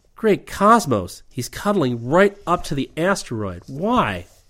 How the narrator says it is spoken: Rip exclaimed

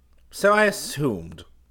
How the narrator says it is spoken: Q said coldly

